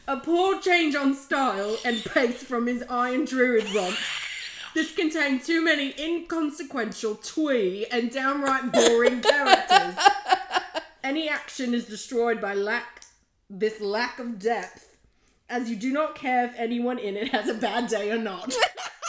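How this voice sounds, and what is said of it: Put-on British accent. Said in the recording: “I'm going to do a British accent”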